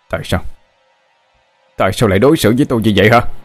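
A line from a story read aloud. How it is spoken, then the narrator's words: Furious loud shout. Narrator (Vietnamese): Tôi hét lớn đầy căm phẫn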